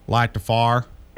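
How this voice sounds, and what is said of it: Ohio accent, says 'far' for 'fire'. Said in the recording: “He's from Ohio. Ask him to light the fire. ... See, that's how those people from Ohio talk. ... And we say light the far.”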